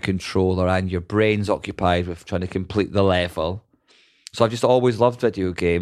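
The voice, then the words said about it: Scottish accent. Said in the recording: “I can do any accent as long as that accent is Scottish ... talking about Scottish accents”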